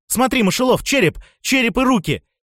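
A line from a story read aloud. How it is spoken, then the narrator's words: Exclaimed. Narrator (Russian): Фавхард воскликнул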